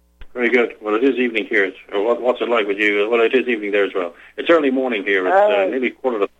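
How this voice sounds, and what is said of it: Slight British accent. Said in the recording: “I detected a slight accent”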